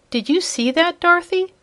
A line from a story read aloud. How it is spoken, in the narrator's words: she gasped